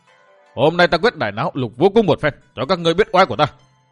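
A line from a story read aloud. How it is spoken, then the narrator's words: Shouting. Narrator (Vietnamese): Độc Cô Thanh Tùng đồng thời chàng quát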